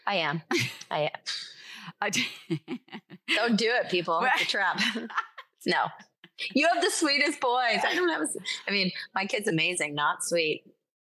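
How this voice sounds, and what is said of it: Canadian accent. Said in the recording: “She's a little pixie with this Canadian accent”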